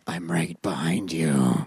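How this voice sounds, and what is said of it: Scary monster voice. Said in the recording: “do you want to hear my monster voice? ... That's scary.”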